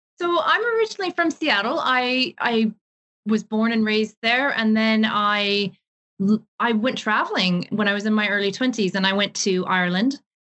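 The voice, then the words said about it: Unusual mixed accent. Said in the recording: “you have a very interesting accent.”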